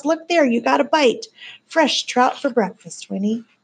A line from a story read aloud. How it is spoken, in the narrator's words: cried Miles